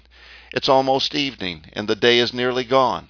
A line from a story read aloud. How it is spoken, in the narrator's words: begged him to stay with them, saying